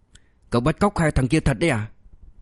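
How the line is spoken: Low voice through teeth. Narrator (Vietnamese): hạ thấp giọng xuống, nó như đít qua kẽ răng

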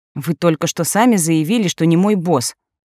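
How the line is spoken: Snarl. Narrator (Russian): рыкнула я

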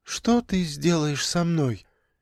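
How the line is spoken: Quiet question. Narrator (Russian): тихо спросила Инга

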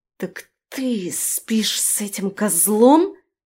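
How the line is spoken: Angry hiss, young woman. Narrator (Russian): зло прошипела девушка

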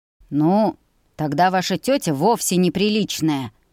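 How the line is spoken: Smirking snort. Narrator (Russian): хмыкнул Ульви

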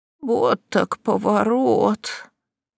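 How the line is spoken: Hoarse mutter, aunt. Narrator (Russian): хрипло пробормотала тетушка

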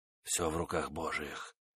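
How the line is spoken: Whispered. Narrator (Russian): шептал он

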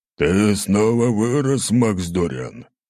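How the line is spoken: Roar. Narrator (Russian): проревел он

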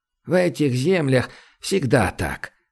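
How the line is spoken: Sighing. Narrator (Russian): вздохнул Румака

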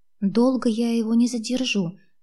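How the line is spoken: Quiet, soft. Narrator (Russian): тихонько сказала я Ивану Александровичу

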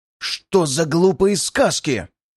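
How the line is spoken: Angry words through gritted teeth. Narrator (Russian): Зло процедил государь

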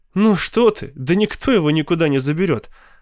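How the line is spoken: Laughing. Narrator (Russian): Она засмеялась

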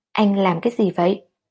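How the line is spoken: Fierce, angry. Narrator (Vietnamese): Kỳ Tinh mắt cô ánh lên vẻ hung dữ, giận dữ nói

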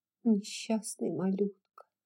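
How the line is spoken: Whisper. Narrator (Russian): прошептала Мелани

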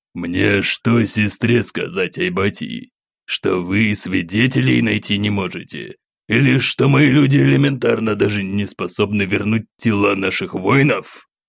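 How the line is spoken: Growled into phone. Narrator (Russian): Прорычал в трубку эмир

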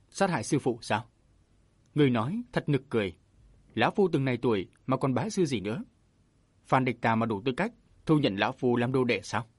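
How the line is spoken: Burst of laughter. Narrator (Vietnamese): Châu Bách Long cười phá lên

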